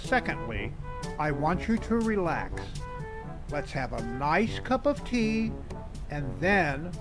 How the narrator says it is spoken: said with a deep sigh

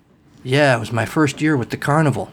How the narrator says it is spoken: Cal said

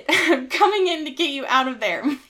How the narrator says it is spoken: he shouted

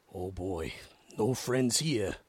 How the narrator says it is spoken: he murmured in her ear

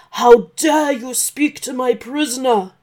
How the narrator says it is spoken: shouted the dragon

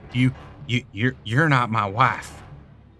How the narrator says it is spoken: I said to the creature, but my voice sounded weak

